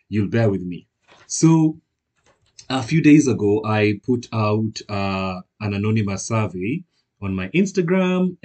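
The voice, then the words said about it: Hoarse voice. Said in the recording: “My voice is kind of hoarse... my voice just sounds hoarse.”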